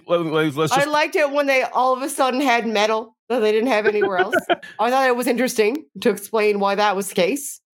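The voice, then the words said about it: Strong natural accent coming through. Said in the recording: “I'm drunk enough that my accent's evidently just like done. We're done. We're just talking in my accent now.”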